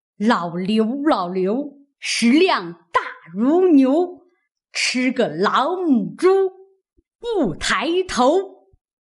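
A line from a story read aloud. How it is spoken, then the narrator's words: Loud. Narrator (Chinese): 刘姥姥便站起身来，高声说道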